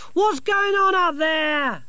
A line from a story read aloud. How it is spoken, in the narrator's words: Sacco yelled up